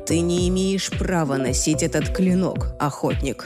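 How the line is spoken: Quiet warning. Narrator (Russian): тихо предостерег он

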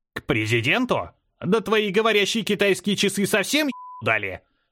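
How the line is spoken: Old man barking. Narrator (Russian): рявкнул дед

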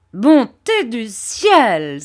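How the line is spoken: Crying out. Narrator (French): s'écria M

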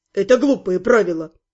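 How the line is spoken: Displeased grumble. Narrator (Russian): недовольно проворчал он

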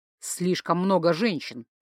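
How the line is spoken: Grumbling. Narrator (Russian): проворчал Ингвар

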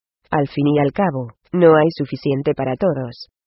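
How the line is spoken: Curt addition. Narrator (Spanish): añadió secamente

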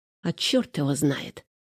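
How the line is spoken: Mutter. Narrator (Russian): пробормотала Женя

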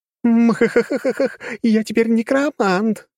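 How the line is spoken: Laughing. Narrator (Russian): рассмеялась Кира

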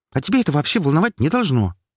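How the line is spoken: Quick snap. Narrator (Russian): Тут же огрызнулась она

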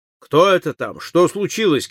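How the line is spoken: Shout from another room. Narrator (Russian): крикнул из гостиной

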